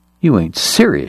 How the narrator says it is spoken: she scoffed

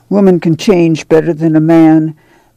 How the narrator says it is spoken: Ma said soothingly

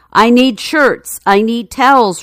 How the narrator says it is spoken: Richardson bellowed

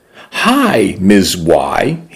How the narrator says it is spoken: said brightly

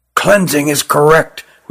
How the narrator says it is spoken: whispered Rugum to Jilin

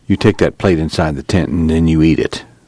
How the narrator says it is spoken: Tom said quietly

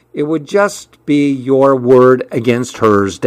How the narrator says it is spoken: Dad replied

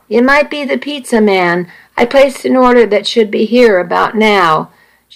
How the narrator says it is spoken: Nikki called out

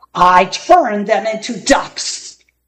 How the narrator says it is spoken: bellowed Kasazi

